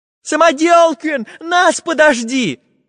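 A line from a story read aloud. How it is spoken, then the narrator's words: Shouted in chorus. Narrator (Russian): хором закричали ребята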